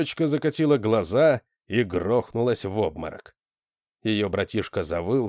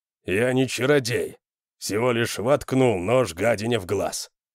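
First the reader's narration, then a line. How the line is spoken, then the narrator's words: Grumbling. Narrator (Russian): проворчал северянин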